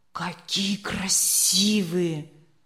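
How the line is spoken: Breathless exhale. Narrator (Russian): выдохнул Леня

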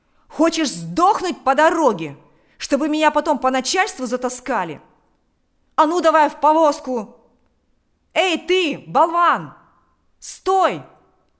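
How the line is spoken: Shouting. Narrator (Russian): закричал он кучеру

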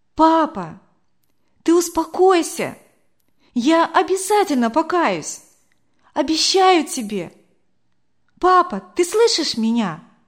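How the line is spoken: Loud, into the ear. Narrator (Russian): Не выдержала я, громко так ему в ухо сказала

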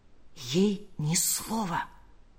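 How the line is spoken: Whisper. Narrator (Russian): прошептал он

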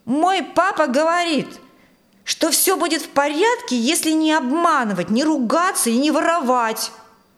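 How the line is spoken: Loud older boy. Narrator (Russian): громко сказал один из мальчиков постарше

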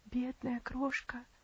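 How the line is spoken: Muttered. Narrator (Russian): пробормотала Аделаид

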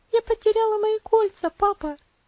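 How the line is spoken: Bursting into sobs. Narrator (Russian): она разрыдалась

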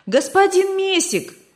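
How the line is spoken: Shouting. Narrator (Russian): кричал

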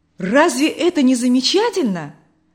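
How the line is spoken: Joyful. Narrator (Russian): радостно продолжал Николай

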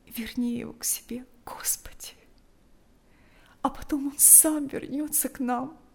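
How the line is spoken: Tearful whisper. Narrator (Russian): шептала она, глотая слезы

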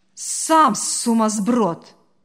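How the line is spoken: Barking. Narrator (Russian): рявкнула та

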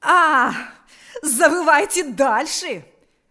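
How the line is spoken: Shout. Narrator (Russian): вновь закричала она

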